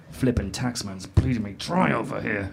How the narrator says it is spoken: he muttered to himself

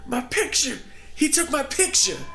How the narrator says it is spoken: Josh kept yelling

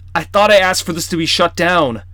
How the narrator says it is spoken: Charlie shouted to Brixton

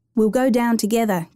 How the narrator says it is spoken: Kimber said

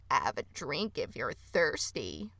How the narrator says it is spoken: a voice croaked from the water

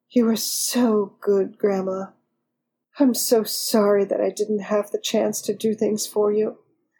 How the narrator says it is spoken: Sherina whispered lovingly

